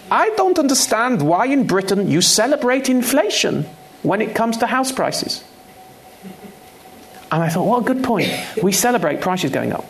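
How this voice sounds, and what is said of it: Put-on German accent. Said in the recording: “a German economist who said to me, I'm going to do the accent. I shouldn't do the. I'm going to do it.”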